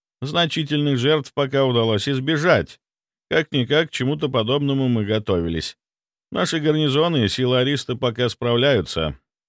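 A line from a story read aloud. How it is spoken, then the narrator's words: Plain. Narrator (Russian): ответил помощник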